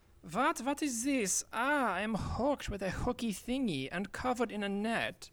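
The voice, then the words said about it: Foreign-accented male voice. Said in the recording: “male with accent”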